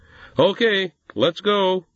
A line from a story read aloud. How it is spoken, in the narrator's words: he shouted